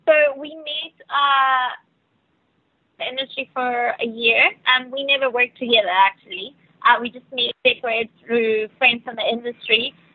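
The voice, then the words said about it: South African Cape Town accent. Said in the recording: “Venezuelan, but you sound like you're from Cape Town. ... my first language is Spanish ... I guess there's a lot of South Africans in this industry. ... And that's the accent I have.”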